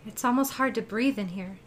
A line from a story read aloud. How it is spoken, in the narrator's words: Jenna said, gasping